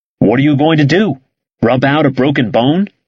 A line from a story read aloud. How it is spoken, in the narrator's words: he asked